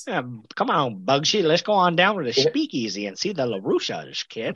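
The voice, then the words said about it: Humphrey Bogart impression. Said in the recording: “terrible Humphrey Bogart impression ... that's pretty much his voice”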